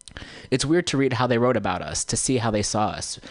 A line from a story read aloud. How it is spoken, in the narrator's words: Bundawi said